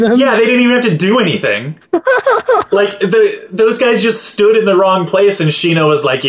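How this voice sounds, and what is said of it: Usual voice. Nothing is said of it.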